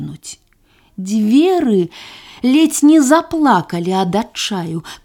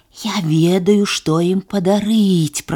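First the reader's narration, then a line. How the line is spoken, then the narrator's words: Hissed. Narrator (Belarusian): прашыпеў вуш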